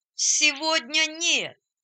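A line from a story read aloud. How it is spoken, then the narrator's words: Joyful group shouting. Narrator (Russian): радостно закричали они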